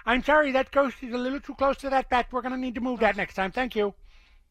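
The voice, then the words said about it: Annoying imitated movie character voice. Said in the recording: “he does it in that voice... my impression's pretty good there... that was surprisingly good. It's quite an annoying voice... it is annoying”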